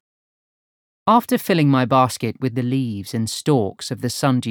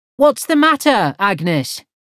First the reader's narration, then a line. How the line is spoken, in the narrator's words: I called out